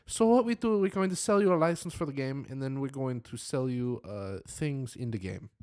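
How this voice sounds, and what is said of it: Put-on vague foreign accent. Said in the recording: “What accent was that? And how was that Japanese ... It's called Foreigner. Foreigner One. ... It's ... foreign accent.”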